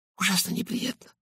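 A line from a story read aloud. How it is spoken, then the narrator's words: Whispered. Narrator (Russian): прошептала мисс Симмонс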